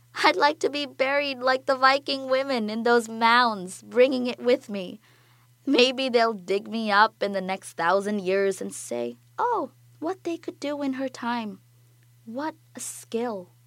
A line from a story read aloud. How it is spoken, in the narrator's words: says, laughing